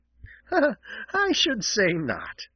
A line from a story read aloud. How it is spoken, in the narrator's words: laughed Jenny